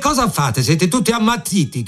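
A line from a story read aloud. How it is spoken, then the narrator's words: Shout. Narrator (Italian): gridò l'uomo dalla benda nera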